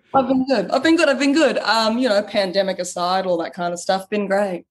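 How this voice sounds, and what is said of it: Australian accent. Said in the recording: “your actual authentic accent ... people are pretty shocked when they hear the Australian accent come through”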